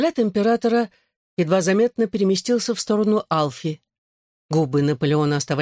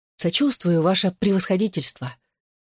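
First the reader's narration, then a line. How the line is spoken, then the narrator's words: Quiet. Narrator (Russian): Альф тихонько проговорил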